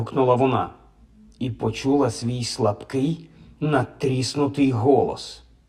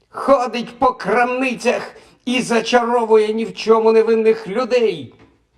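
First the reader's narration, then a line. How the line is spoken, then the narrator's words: Shouting. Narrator (Ukrainian): закричала Софі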